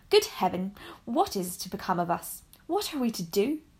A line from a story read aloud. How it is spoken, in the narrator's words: they would often exclaim in bitterness of woe